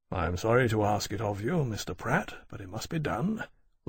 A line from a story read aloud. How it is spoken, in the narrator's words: Lawrence said to the armourer quietly